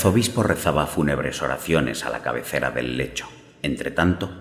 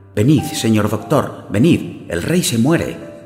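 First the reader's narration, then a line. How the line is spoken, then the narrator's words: Exclaiming. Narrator (Spanish): exclamó don Miguel de Guerra interrumpiendo al amigo de la muerte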